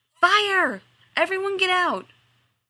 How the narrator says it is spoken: Oz shouted

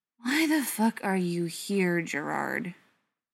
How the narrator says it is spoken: Beckett asked, with a sigh of annoyance

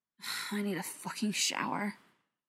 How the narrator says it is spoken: he muttered

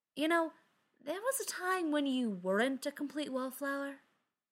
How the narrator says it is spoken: Spencer said wistfully, close to Ryan's ear so he could be heard over the music

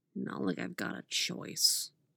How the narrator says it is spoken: Jason muttered, acquiescing

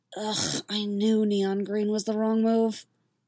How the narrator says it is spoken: she muttered to herself

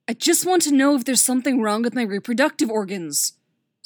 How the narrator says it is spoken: Superboy snaps angrily

